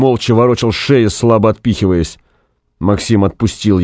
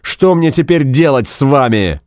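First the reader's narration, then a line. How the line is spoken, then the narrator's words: Barked. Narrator (Russian): гаркнул он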